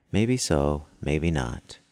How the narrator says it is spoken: he calmly replied

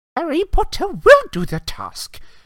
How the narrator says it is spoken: squeaked the elf

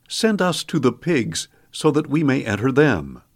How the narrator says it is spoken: the demons begged Jesus

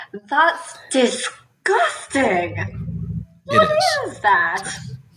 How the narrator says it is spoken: Hydra will also yell

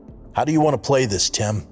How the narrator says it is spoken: asked Muir

